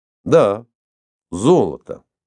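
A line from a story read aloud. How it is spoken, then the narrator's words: Cold. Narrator (Russian): холодно подтвердил Иван Павлович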